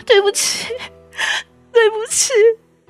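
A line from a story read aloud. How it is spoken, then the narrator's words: Crying, overwhelmed. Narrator (Chinese): 我忽然绷不住了，这些天的委屈、恐惧、疲惫，哭着说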